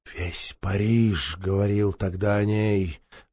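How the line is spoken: Sighed. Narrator (Russian): вздохнул маркиз де Марин

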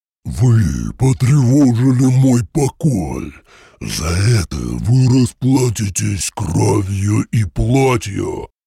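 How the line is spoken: Heavy roar. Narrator (Russian): Тяжело взревел он

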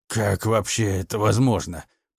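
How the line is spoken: Hoarse disbelief. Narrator (Russian): недоверчиво прохрипел он

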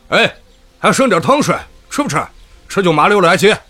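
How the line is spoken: Shouting over pot banging. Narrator (Chinese): 厨房敞开的窗口探出个人头 喊道

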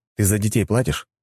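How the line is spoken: Plain question. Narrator (Russian): спросил

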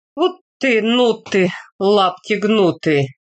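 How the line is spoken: Chuckling question. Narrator (Russian): Тихон Трофимович хохотнул и спросил

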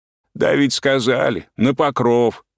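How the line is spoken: Gloomy hoarse interruption. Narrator (Russian): сумрачно перебил сиплым голосом большой рыжий мужик

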